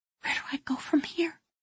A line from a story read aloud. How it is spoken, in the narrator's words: She whispered